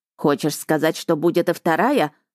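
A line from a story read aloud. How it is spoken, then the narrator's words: Spiteful grating voice. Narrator (Russian): злобно проскрежетал блокнот великого Бельфо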